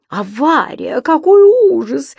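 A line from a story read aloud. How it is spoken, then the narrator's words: Woman tourist exclaiming. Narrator (Russian): воскликнула одна из туристок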